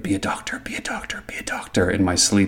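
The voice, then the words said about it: Whispered repeated phrase. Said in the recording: “whispering”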